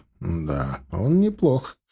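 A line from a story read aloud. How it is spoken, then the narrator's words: Thoughtful agreement. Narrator (Russian): задумчиво поддержал ее Стас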